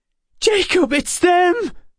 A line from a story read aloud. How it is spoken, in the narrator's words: Emma cried